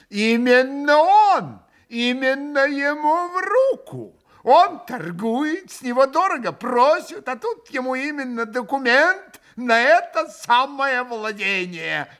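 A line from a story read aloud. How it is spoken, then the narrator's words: Sudden short wooden laugh. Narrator (Russian): Митя вдруг захохотал своим коротким деревянным смехом, совсем неожиданным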